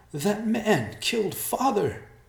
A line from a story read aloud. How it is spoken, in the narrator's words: she cried